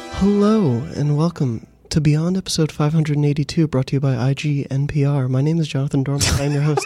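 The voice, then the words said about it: Soft, low NPR-style radio voice. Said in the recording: “Is this like your bedroom voice? ... My NPR voice. ... real ASMR stuff”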